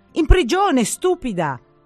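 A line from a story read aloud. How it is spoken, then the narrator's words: Sister shouting. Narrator (Italian): gridò mia sorella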